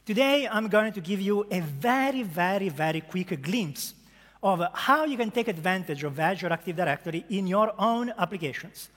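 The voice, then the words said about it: Strong Italian accent. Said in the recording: “a strong Italian accent ... As you can hear from my accent ... my accent, unfortunately, doesn't want to go”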